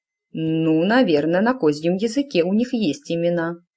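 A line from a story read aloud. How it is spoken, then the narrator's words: Vague mumble. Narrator (Russian): неопределенно пробурчала она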